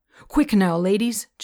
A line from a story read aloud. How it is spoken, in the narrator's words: Joe called out